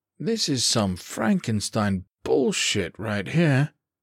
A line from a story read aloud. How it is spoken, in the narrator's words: he muttered